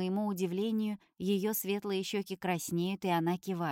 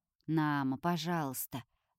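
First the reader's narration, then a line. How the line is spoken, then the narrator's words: Too soft. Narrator (Russian): говорит Олесио, на мой взгляд, слишком уж мягко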